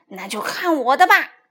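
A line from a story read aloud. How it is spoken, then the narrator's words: Through gritted teeth. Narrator (Chinese): 她咬牙切齿地说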